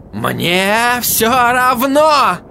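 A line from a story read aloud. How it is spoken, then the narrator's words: Furious yell. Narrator (Russian): заорал он, в ярости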